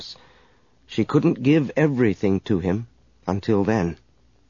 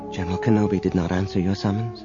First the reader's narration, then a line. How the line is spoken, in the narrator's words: said quietly